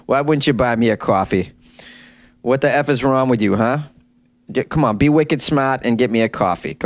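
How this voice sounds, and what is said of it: Put-on Boston accent. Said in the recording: “my Boston accent slipped out”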